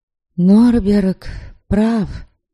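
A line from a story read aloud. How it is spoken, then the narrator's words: Sad reply. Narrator (Russian): печально отозвалась я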